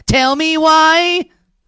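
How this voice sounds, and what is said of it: Sings imitating a pop boy band. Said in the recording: “I'll do my best Backstreet Boys impersonation.”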